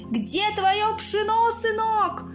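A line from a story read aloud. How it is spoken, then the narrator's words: Sudden shout, bearded beggar. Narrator (Russian): внезапно выкрикнул бородатый нищий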